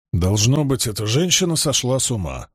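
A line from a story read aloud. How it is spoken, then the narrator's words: Grumbling. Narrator (Russian): проворчал Добрейн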